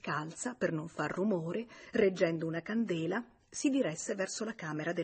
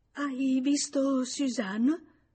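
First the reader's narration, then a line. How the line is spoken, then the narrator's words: Stammering woman. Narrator (Italian): Lei balbettò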